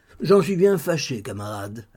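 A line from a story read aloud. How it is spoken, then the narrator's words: Resigned. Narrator (French): ajouta-t-il d'un ton résigné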